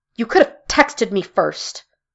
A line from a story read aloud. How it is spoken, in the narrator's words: Mara snapped